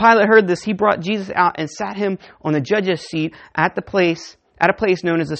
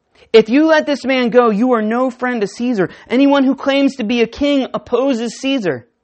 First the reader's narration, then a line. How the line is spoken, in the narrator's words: the Jewish leaders kept shouting